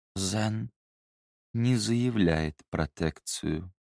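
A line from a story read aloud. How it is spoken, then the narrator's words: Quiet. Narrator (Russian): тихо проговорила Тамара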